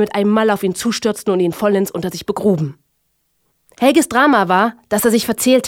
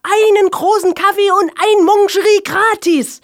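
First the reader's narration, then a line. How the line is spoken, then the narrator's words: Exhausted shout. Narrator (German): ergänzte Helge und schrie mit letzter Kraft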